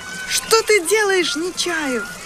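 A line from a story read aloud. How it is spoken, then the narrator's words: Shouted. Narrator (Russian): закричала Ирма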